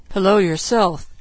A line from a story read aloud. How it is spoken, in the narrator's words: he mumbled